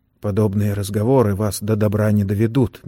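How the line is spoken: Gentle. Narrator (Russian): мягко заметил Сэм

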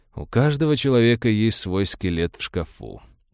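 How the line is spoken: Grim joking. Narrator (Russian): мрачно пошутил доктор

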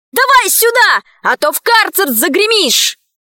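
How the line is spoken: Shout from above. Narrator (Russian): Сверху Алисе крикнули

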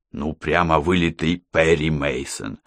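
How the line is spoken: Smiling whisper. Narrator (Russian): с улыбкой шепнул Мухаммед

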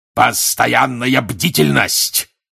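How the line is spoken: Barked. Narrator (Russian): рявкнул он

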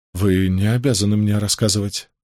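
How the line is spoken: Strained, forced out. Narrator (Russian): выдавил Мэтью

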